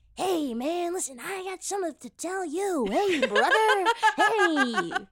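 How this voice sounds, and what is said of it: Quentin impression. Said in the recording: “Should we all do a Quentin impression?”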